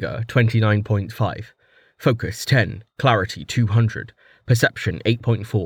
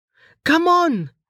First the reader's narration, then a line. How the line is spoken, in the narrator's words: Amelia yelled